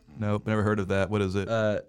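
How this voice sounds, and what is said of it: Imitates another person's voice. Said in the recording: “that was my best Abby impersonation ... if that's your best, I'm disappointed”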